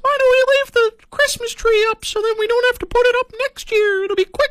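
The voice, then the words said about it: Childlike put-on kid voice. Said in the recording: “do my kid voice.”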